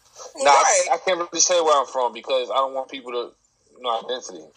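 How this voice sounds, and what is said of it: Northern US accent, not Atlanta. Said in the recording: “you clearly ain't from Atlanta ... you got a whole accent ... Up north, ain't it?”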